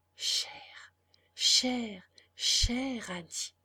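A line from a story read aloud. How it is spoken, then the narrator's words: Quiet repeated murmur. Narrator (French): Il répéta tout bas, plusieurs fois de suite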